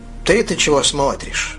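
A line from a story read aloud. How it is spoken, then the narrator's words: Plain. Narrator (Russian): сказал Уильям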